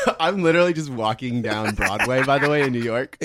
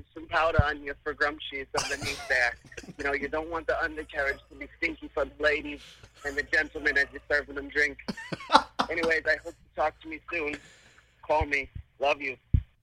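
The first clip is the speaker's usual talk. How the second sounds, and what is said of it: Old smoker lady, Massachusetts accent. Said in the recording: “talking like an old smoker lady from Massachusetts”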